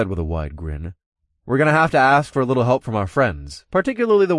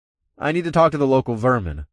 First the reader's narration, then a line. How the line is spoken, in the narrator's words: I said with a playful snort